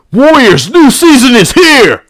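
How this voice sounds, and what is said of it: Yelling delivery. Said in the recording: “he's yelling at me”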